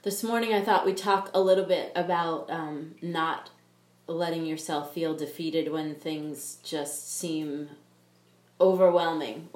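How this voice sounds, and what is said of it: Funky-sounding voice with a cold. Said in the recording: “I have a little bit of a cold, so if I sound funky”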